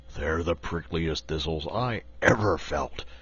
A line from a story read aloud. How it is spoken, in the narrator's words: grumbled the Lion